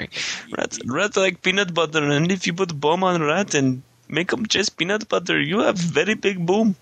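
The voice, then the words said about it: Mock Russian accent drifting to Apu. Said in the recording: “Terrible accent ... sounded like the guy from Quickie Mart ... you started Russian and you end up as Apu Mahasapiala Petalan”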